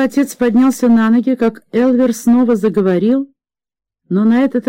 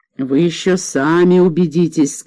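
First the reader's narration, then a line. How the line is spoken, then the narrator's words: Plain. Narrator (Russian): сказал Элвер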